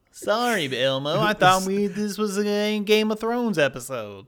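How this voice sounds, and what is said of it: Big Bird character voice. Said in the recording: “That's my Big Bird impersonation.”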